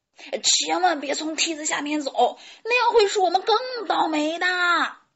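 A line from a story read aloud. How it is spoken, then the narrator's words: Loud shout. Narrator (Chinese): 小胖墩儿高声喊道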